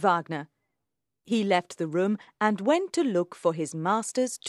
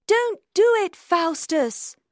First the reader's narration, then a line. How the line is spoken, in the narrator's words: the good angel cried